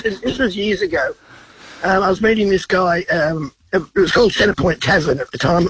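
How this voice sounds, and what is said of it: Congested voice from a cold. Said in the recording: “sorry about the voice. I've got a cold.”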